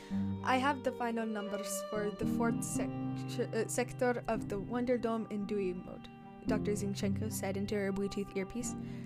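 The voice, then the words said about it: Poor put-on Russian accent. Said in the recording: “my terrible Russian accent”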